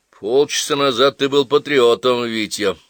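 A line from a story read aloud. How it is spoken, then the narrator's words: Gloomy remark. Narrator (Russian): мрачно заметил Крекшин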